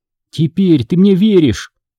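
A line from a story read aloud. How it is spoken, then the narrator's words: Shouting. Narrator (Russian): крикнула Дженни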